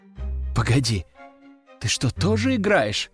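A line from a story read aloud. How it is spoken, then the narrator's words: Surprised faltering babble. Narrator (Russian): удивленно пролепетала она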